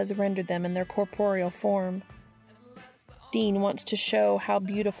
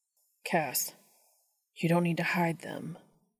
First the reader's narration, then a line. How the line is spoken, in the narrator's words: Dean says softly